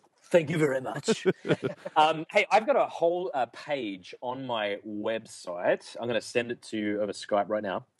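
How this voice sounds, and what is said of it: Pleasant noticeable accent. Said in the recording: “you have a delicious accent.”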